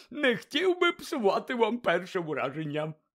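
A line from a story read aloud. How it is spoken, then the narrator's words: Cheerful grinning explanation. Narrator (Ukrainian): пояснив він, радісно шкірячись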